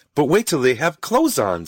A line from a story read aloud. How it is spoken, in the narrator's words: said Rose happily